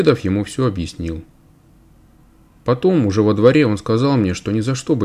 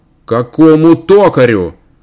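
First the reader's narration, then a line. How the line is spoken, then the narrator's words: Father shouting. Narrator (Russian): закричал отец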